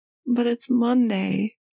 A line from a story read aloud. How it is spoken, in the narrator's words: he says sadly